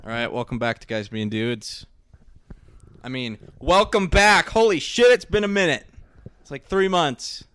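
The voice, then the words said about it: Loud yelling voice. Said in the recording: “I'm yelling.”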